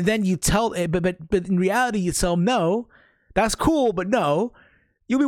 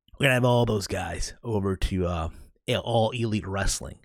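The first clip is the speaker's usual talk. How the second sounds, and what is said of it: Imitates another person's voice. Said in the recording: “my best Tony Khan impersonation. Okay, I know it's terrible.”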